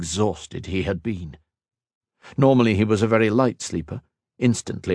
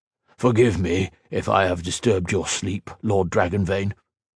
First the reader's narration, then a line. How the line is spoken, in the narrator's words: said